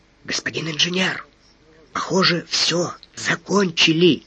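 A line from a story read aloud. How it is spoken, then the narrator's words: Whisper. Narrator (Russian): шепнул Смуров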